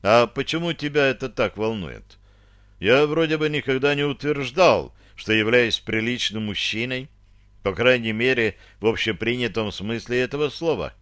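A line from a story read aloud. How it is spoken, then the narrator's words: Feigned indifference. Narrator (Russian): глубоко вздохнул, беря себя в руки, и нарочито равнодушно спросил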